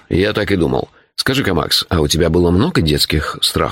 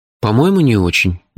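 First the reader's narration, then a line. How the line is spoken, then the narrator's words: Hesitant answer. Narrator (Russian): неуверенно ответил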